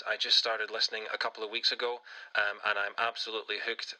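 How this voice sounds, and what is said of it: Scottish accent. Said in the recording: “in case you couldn't tell from the accent, I was born and raised in Scotland”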